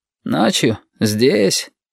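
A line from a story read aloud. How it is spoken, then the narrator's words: Sleepy surprise. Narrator (Russian): сонно удивился Шамиль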